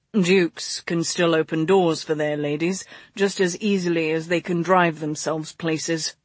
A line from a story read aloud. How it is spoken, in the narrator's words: he said, pleased with how smoothly that had come out